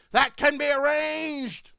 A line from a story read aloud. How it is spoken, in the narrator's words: the evil man exclaimed